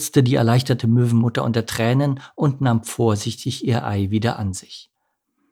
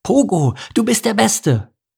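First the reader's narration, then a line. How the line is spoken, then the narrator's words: Calling out. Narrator (German): rief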